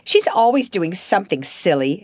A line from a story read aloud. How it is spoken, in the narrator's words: snapped Lavinia